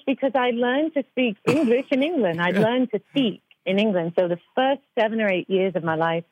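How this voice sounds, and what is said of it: Clean British accent. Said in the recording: “your accent is so clean, and it sounds very British”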